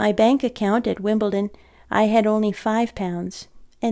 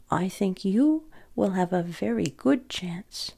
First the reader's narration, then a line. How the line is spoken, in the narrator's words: Uncle Tobbs said gently and quietly